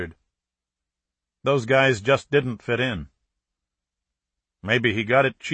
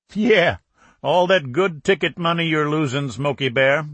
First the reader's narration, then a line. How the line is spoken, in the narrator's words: a driver commented with a chuckle